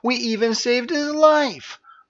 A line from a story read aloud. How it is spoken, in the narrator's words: whined Vercera for the 100th time